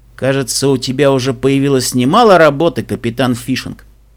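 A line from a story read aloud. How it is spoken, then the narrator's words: Snorting. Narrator (Russian): фыркнул Себастьян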